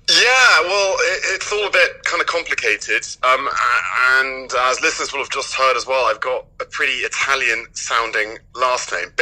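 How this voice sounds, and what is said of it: Strong English accent. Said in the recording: “you have a strong English accent”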